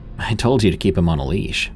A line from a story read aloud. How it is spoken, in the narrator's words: sighed and answered